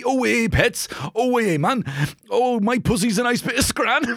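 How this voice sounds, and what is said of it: Put-on Newcastle British accent. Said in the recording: “Bonus points if you can nail multiple British accents... Now we're in Newcastle, mate.”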